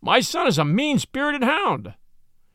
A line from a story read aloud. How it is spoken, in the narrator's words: cried this furious old worldling